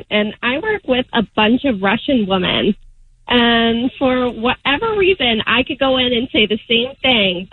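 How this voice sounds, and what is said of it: Boston accent. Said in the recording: “So, I have a Boston accent”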